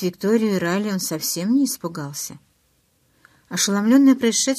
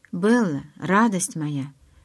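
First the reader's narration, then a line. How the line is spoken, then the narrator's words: Very soft. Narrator (Russian): очень мягко сказал он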